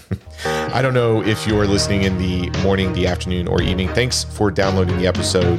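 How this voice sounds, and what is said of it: Strained, worn-out voice. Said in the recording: “my voice is going to get rested up. I won't be, you know, shouting any Motley Crue tunes ... I promise next week I'll sound better.”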